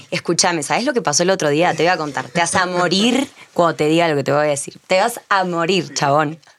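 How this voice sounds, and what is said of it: Put-on Argentine porteño accent. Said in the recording (Spanish): “Acento argentino ... ¡Pero más porteño!”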